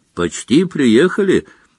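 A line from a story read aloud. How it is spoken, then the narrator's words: Cheerful. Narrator (Russian): весело сообщил Дамблдор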